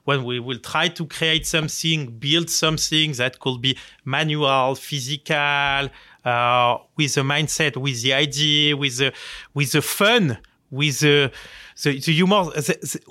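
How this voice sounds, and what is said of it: Charming non-native accented English. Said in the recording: “our respectful, charming accent”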